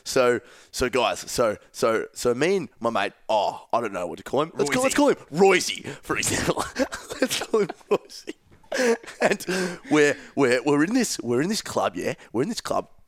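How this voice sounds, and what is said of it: Impression of Bill's storytelling voice. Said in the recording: “I was practicing Bill impersonations in the mirror last night ... I reckon I've picked his storytelling down to an absolute T.”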